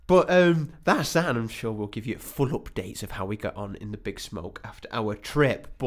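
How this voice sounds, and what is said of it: Giddy, excited voice. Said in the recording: “I'm a little bit giddy, as you might be able to hear in my voice”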